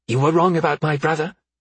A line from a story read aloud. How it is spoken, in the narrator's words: Beatrix snapped